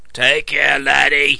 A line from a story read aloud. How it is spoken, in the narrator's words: rumbled Pigott